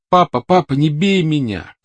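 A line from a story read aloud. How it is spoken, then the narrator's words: Shouting. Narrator (Russian): кричал он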